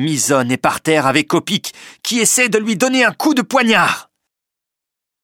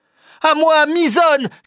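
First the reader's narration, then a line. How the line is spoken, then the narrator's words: Shouting. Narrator (French): crie Penellan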